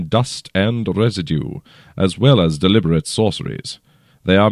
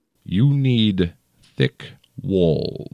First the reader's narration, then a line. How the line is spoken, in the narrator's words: he said slowly, with a thin smile on his lips